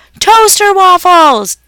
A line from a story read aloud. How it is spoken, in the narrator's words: Dad yelled louder